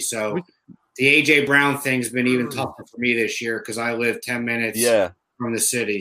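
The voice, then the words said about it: Thick New Jersey accent. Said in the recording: “who's got the thickest Jersey accent out of the three of us? ... I would say you, man.”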